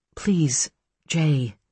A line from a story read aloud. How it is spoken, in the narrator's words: Ellen murmured